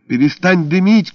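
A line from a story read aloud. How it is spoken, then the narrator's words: Ringing shout. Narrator (Russian): крикнула я, чувствуя, как резонирует у меня в ушах собственный мой голос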